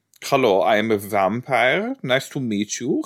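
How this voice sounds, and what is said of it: Exaggerated fake German accent. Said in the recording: “really, like, European accents... Like a super German... Is that a German accent?”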